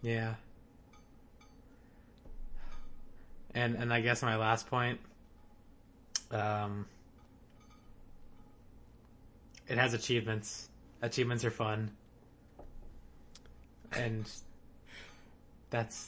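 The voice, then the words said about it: Sad, downbeat voice. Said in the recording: “You sound so sad.”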